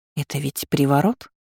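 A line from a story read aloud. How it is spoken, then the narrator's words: Confused question. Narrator (Russian): растерянно уточнила Селия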